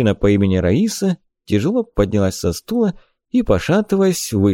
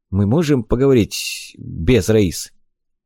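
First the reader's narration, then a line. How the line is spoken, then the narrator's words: Strained, forced out. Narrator (Russian): клиент с трудом выдавил из себя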